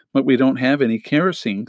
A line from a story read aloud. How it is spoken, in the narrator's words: Klaus said mournfully